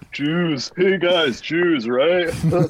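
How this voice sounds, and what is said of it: Spot-on impression of co-host's voice. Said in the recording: “he's going to mock me as soon as I do... He nails your impression... a guy nails exactly your impression”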